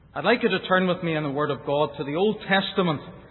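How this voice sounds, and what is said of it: Northern Irish Ulster accent. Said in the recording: “you'll not have too much trouble with my Ulster accent. You may wish after a little while or two that someone here in this audience had the gift of interpretation.”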